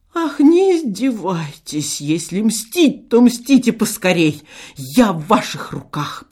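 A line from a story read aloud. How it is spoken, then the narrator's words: Moaning. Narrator (Russian): простонал Шептунов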